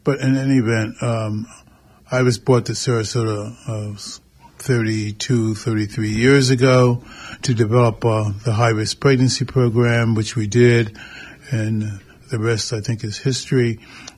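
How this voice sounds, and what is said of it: Slightly hoarse, throaty voice. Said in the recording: “I've got a little frog in my throat this morning”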